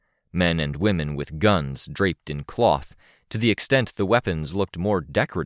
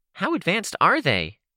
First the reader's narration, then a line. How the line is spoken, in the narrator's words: Kenzie asked, her voice still nasal